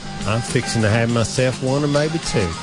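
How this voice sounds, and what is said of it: Put-on Southern American accent. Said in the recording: “You're doing a very good job. Although you sound like you should be in Deliverance. ... I am getting my Southern accent from three of my favorite Southerners”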